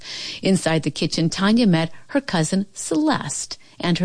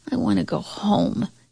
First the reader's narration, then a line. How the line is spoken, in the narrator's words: she murmured into her pillow